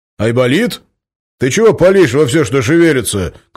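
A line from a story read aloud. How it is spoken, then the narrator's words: Bear shouting. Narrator (Russian): крикнул медведь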